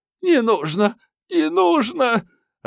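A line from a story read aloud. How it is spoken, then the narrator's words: Sobbing, suddenly aged. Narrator (Russian): Охлобыстина, разом постарев, рыдала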